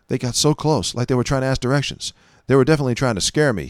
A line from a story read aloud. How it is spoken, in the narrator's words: said